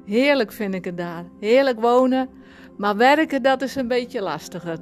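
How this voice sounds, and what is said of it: Frisian-accented Dutch. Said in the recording (Dutch): “jij bent geboren in Friesland ... dat kun je waarschijnlijk nog horen aan mijn accent”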